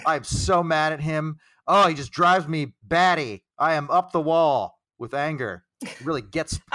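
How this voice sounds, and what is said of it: Mock angry manager voice. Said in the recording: “This is a very good impression of a manager talking about a player in public.”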